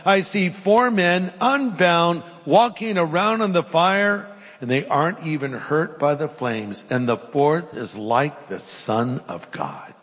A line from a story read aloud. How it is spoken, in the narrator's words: Nebuchadnezzar shouted